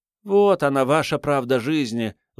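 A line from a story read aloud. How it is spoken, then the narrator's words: Sigh. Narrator (Russian): вздохнула Мурзик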